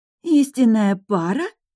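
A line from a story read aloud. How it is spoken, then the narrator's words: Surprised exclamation. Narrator (Russian): удивленно воскликнула Дамила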